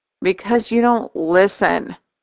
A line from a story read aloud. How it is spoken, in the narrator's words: I sigh